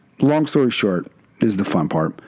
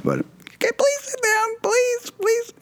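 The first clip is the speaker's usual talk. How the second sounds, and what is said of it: High-pitched yelling boyish voice. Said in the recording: “me and my prepubescent voice ... I can't even get my voice to probably get as high as it was ... yelling”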